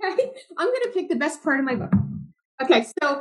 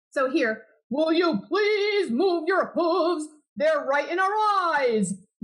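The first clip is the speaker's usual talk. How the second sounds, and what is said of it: Animal character voices. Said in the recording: “I can do the voices”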